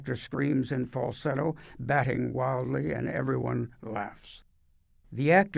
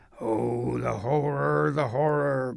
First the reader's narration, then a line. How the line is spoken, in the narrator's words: growls the actor playing the beast